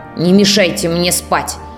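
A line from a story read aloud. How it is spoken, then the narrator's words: Grumbling recluse. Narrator (Russian): Нелюдим буркнул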